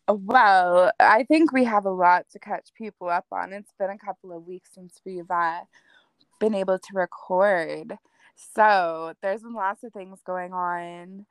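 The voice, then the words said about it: Voice sounds like a cold. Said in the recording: “I can hear it in your voice. ... It's still a little bit there, but I'm like, it's more like a cold now”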